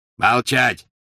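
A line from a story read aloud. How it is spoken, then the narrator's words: Barking. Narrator (Russian): рявкнул Грюм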